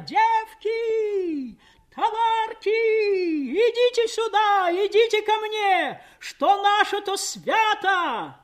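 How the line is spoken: Strange singing joyful shout. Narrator (Russian): Мать неслыханно чужим голосом, поющим, но призывно радостным, кричала

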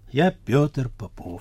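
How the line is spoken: Quiet. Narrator (Russian): он тихо сказал

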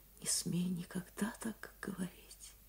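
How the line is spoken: Whisper. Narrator (Russian): прошептала она

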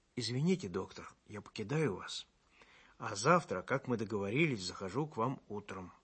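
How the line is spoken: Quiet. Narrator (Russian): Максимыч тихо сказал мне

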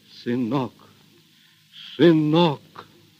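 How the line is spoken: Choked, repeating. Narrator (Russian): Григорий сдавленным голосом твердил только одно слово

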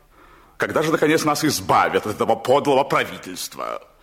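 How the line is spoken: Loud declaration. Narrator (Russian): громко заявлял жене

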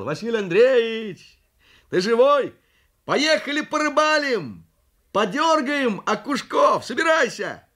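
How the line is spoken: Shouted. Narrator (Russian): соседу кричал

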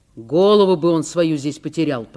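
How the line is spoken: Grumbled. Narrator (Russian): проворчал Николай Фомич

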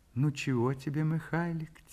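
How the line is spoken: Quiet tender question. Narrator (Russian): тихо, ласково спрашивает мать

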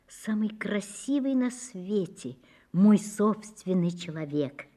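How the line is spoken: Quiet. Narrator (Russian): Даша сказала тихо

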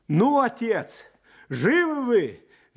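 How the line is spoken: Cheerful shout. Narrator (Russian): Весело кричал он

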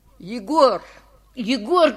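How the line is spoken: Shouting. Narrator (Russian): кричал я

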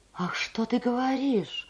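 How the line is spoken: Frightened exclamation. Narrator (Russian): воскликнула Софья Михайловна, сделав испуганные глаза

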